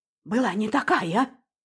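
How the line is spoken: Terrified whisper to herself. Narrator (Russian): в ужасе шептала сама себе

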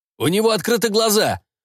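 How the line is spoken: Shouted out. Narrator (Russian): выкрикнул один из проверяющих

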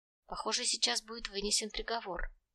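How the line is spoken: Quiet. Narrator (Russian): негромко произнес Трот

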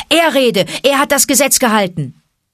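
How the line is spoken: Thundering elder over din. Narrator (German): übertönte die donnernde Stimme des Ältesten des Rudels das Gewirr

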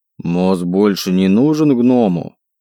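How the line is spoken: Offended question. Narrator (Russian): Обиженным тоном поинтересовался он

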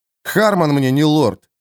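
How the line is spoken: Contemptuous, through gritted teeth. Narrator (Russian): презрительно процедил Джоакин

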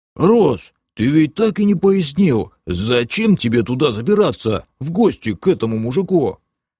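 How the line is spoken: Deep booming voice. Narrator (Russian): Басовито прогудел полуорк Бом

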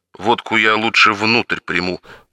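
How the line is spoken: Grumble. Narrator (Russian): пробурчал Мишаня

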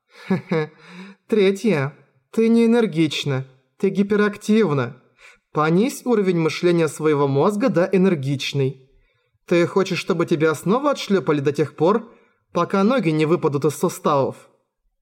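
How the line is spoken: Sighing. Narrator (Russian): Мияка вздохнула

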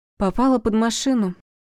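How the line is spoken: Gloomy reply. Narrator (Russian): мрачно ответила Севастьянова

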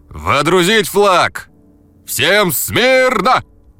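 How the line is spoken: Playful shout. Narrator (Russian): Дурашливо крикнул

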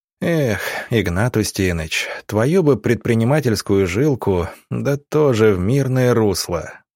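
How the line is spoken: Doctor sighing. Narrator (Russian): вздохнул доктор

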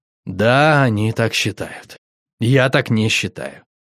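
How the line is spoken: Weary sigh. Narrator (Russian): Устало вздохнув, сказал

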